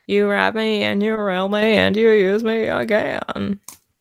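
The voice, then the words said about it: Sung imitation of a distorted singer. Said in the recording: “because like that voice. Because it's like distorted, so it kind of sounds like that. Like she's singing, but they put something like a filter over her ... Why did you weird. Sing it like that? ... That was my impression of the B-52's vocalist.”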